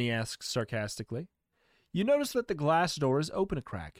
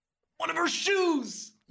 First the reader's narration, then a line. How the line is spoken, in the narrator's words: You shout